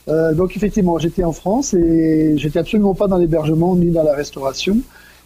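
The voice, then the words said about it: Slight French accent. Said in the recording (French): “tout frais venu de France, puisque comme pas mal d'auditeurs vont remarquer, j'ai un petit accent qui me trahit”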